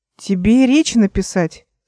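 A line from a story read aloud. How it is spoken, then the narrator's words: Plain. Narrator (Russian): спросила Эл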